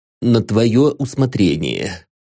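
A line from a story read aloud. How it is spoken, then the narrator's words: Muffled, congested voice. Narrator (Russian): глухо ответил Борис Георгиевич, который уже не мог дышать носом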